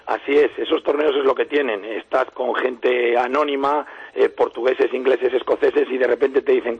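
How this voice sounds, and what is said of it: Hoarse, deep, worn-out voice. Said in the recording (Spanish): “esperando que la garganta de Miguel Ángel Torres termine por recuperarse ... me lo ha derrotado ... Voz de ultratumba”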